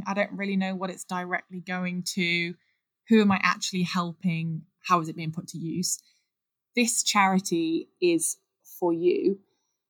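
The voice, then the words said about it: English Midlands accent. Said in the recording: “my Midlands accent”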